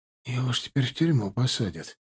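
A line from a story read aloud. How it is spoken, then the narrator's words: Whisper. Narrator (Russian): прошептал мне Белоус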